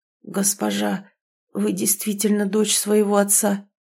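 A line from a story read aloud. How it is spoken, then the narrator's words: Hoarse male mutter. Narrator (Russian): сиплым голосом пробормотал мужчина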